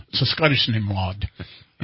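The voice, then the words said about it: Weak put-on Scottish accent. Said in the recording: “that's about as good as I get at my Scottish impression there. Halfway through my impressions, they all somehow end up sounding German.”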